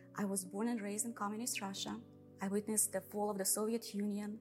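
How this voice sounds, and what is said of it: Russian accent. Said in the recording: “you think you figured out from my accent that I'm Russian”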